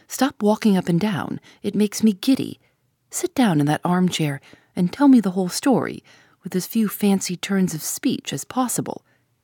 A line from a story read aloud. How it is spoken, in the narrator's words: said Tuppence firmly